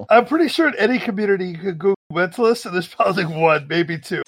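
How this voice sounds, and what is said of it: Noticeable accent. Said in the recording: “your amazing accent”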